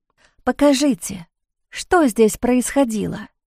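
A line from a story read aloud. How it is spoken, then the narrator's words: Whisper. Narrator (Russian): прошептала она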